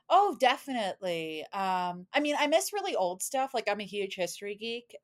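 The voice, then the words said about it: Clear neutral American, NPR-like voice. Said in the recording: “your accent is so easy to understand because you sound like TV ... describe my accent as chronic NPR voice”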